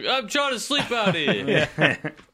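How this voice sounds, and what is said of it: Put-on New York accent. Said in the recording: “That's your New York accent. ... Your homeless New York accent.”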